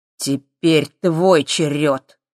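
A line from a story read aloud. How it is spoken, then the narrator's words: Muffled, hollow voice. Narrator (Russian): глухо сказал он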